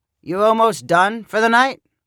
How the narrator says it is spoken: Lyle asked, not very loudly

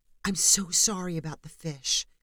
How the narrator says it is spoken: Haley whispered

